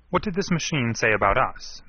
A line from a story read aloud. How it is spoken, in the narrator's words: Manning asked sharply